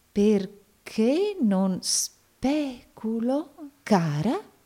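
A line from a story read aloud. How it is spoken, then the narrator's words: Doubtful tone. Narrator (Italian): disse il signor Nickleby in tono di dubbio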